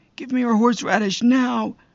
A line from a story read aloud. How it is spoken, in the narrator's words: Roger is always impatient, but he was screaming